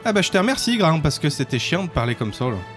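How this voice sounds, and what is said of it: Put-on Saint-Étienne French accent. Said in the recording (French): “Puis-je prendre l'accent stéphanois?”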